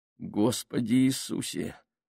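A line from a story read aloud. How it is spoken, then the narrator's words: Groaning. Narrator (Russian): простонал Джордж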